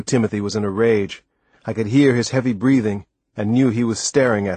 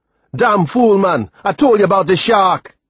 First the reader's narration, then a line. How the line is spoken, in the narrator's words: He yelled